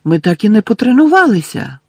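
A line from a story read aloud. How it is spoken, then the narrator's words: Shocked exclamation. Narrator (Ukrainian): вражено вигукнула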